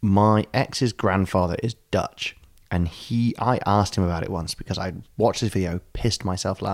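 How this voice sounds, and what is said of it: Usual voice. Nothing is said of it.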